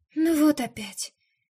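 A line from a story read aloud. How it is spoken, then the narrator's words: Sighing. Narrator (Russian): вздохнула Марина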